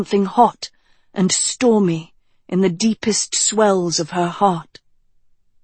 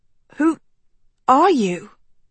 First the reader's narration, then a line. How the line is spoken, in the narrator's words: she choked